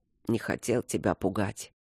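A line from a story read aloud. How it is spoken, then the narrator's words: Sleepy mumble. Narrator (Russian): пробормотал он, уже засыпая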